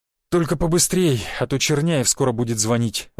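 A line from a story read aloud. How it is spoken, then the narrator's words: Sighing. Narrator (Russian): вздохнул Волгин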